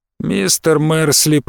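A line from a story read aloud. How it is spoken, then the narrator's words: Creaky voice. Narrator (Russian): проскрипел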